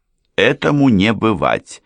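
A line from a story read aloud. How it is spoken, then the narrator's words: Angry declaration. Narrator (Russian): сердито объявила ее племянница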